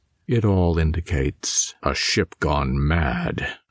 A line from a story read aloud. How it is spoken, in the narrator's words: Caraway finished grimly